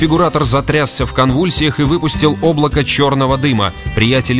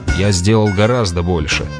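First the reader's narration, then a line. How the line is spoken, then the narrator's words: Tired reply. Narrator (Russian): устало ответил Грегор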